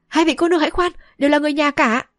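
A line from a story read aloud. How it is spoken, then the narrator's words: Hurried shout. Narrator (Vietnamese): vội quát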